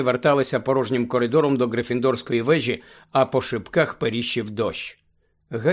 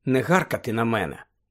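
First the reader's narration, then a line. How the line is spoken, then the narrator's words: Tired. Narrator (Ukrainian): втомлено проказала Герміона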